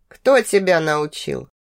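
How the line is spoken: Tired. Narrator (Russian): Продолжил говорить он, устало

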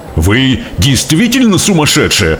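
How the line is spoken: Distressed father exclaiming. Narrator (Russian): воскликнул несчастный отец

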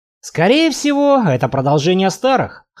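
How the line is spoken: Snorting. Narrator (Russian): хмыкнул я

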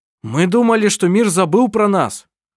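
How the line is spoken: Shout. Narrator (Russian): крикнул Коль

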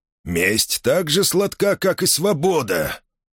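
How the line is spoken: Growl. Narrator (Russian): прорычал Махмуд

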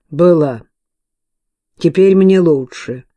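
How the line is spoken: Cold reply. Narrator (Russian): холодным тоном ответила Кейт

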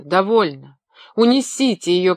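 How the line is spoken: Sobbing shout. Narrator (Russian): крикнул Шарль, рыдавший в алькове

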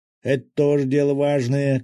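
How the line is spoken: Shout. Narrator (Russian): крикнул рыбак

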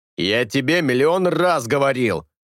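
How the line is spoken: Barking shout. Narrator (Russian): рявкнул Хуан

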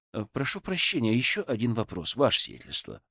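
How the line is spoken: Calm. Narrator (Russian): спокойно сказал я

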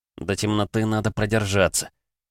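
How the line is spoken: Whispered again. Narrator (Russian): шептал Андрей в очередной раз

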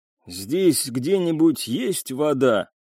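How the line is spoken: Hoarse wheeze from behind. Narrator (Russian): просипел за спиной Яссен

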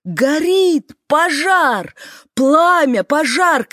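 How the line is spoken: Panicked screaming. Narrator (Russian): кричала, не понимая, что пожар на ней

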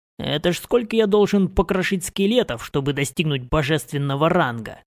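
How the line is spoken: Grumbling mutter. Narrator (Russian): Пробурчал я

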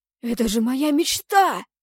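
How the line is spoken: Young man's exclamation. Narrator (Russian): воскликнул рыжеволосый парень

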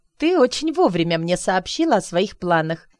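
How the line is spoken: Sudden laughter. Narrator (Russian): Неожиданно даже для себя рассмеялась я

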